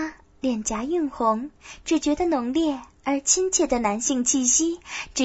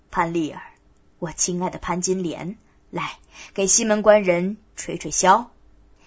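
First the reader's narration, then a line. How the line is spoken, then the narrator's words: Laughing. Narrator (Chinese): 笑道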